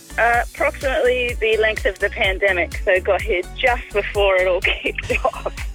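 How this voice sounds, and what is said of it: Australian accent. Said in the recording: “Do I detect an accent there somewhere? ... I'm trying to keep it strong. I watch as much Australian TV as I can to try and keep it.”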